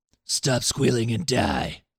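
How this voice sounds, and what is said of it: Gravelly Sabretooth voice, a bit Batman-like. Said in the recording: “do the Sabretooth voice. ... It's a little Batman-y”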